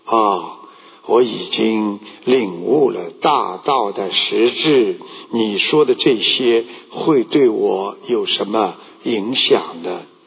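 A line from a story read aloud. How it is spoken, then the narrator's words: Calm, flat. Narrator (Chinese): 老子却淡淡的开口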